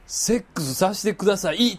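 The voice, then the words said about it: Fairly loud voice. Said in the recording (Japanese): “かなりデカめの声で”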